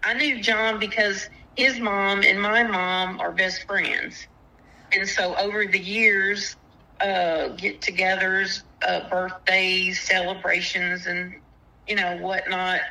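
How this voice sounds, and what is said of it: Strong rural Southern US accent. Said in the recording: “that redneck accent.”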